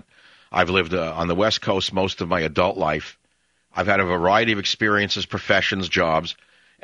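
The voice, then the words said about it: Heavy New York accent. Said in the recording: “a guy originally from New York with a heavy New York accent.”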